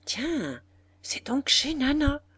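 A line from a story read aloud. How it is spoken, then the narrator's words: Murmured. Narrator (French): murmura la Faloise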